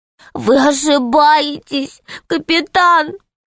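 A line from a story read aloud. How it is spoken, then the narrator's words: Sad, tearful. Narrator (Russian): сказал печально крыс, вытирая слезы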